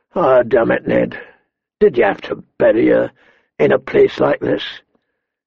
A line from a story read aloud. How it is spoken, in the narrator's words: His voice was hoarse with remembered grief